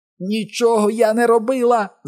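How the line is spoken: Shrieking. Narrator (Ukrainian): заверещала вона до нього

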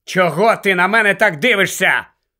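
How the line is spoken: Shouted. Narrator (Ukrainian): крикнув він Герміоні

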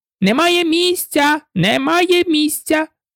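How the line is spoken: Group shouting. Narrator (Ukrainian): закричали вони

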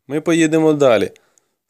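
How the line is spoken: Plain. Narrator (Ukrainian): сказав я

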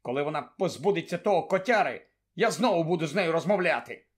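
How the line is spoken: Angry speech. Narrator (Ukrainian): сердито мовив Рон

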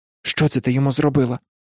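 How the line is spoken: Whisper. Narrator (Ukrainian): прошепотів Гаррі

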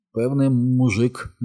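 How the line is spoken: Trembling, tearful voice. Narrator (Ukrainian): мовив тремким голосом і витер сльози

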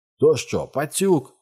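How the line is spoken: Bark. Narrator (Ukrainian): гаркнув Джордж Б'юкенен

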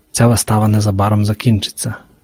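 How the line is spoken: Whisper. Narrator (Ukrainian): прошепотів песик

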